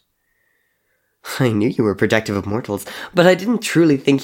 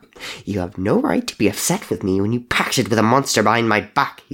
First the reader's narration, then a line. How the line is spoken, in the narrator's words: he snapped